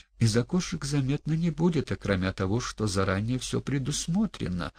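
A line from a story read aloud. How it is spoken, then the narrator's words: Servant, quiet and measured. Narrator (Russian): тихо и размеренно ответил слуга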